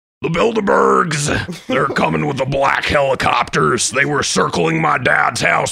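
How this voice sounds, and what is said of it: Imitates another person's voice. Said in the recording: “that's a great Alex Jones”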